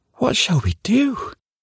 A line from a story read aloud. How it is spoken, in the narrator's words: asked Whisk anxiously, all the mirth and mischief banished from his wee face by this great calamity